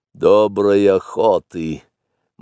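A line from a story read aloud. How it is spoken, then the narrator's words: Gloomy. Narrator (Russian): мрачно сказал Ка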